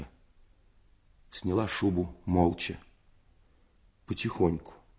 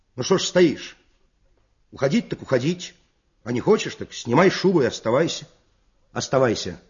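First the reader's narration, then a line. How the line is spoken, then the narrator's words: Stern, annoyed shout. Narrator (Russian): досадуя на свою бесхарактерность, он крикнул сурово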